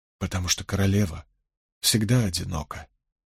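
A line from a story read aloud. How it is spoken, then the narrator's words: Quiet reply. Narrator (Russian): тихо ответил Том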